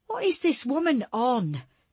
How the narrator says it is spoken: Jesse cried

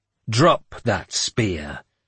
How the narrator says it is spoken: I snarled at the second man

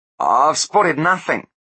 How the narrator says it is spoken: said Blunt shakily

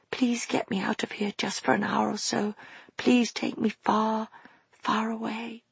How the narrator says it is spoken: she whispered

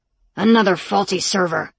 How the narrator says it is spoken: he muttered

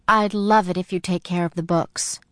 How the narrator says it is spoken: Mom said

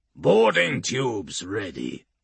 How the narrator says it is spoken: he rasps

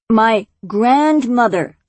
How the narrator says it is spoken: Luna said more deliberately in a loud voice

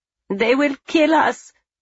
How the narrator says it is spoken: a woman wails

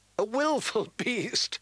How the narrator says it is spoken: laughed a handsome young man

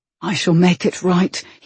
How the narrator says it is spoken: he whispered

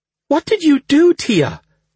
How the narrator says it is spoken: Lady Michaela gasped

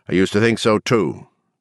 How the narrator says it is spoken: Dick replied

